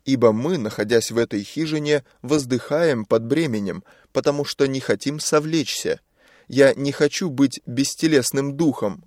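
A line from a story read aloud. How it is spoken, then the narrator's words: Plain. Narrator (Russian): говорит Павел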